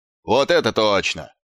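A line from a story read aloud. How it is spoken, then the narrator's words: Yelling dwarf in crowd. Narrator (Russian): заорал какой-то гном из толпы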